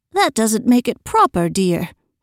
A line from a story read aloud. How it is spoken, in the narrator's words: put in gently